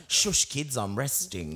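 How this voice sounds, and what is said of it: Imitates a father's voice. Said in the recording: “You sound like my dad. ... you sound like sound like all our fathers.”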